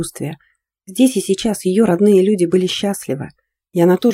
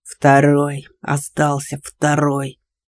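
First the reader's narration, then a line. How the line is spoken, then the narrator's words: Furious hiss. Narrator (Russian): прошипел вроде бы вполне нормальный, если бы не аномальный объем втиснутого в него злобы ярости голос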